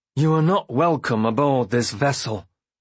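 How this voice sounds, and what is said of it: Flat, unangry but menacing tone. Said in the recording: “in a flat voice. There was no anger in his tone, but there was danger.”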